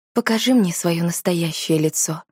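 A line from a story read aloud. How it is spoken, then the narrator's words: Soft request. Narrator (Russian): мягко попросила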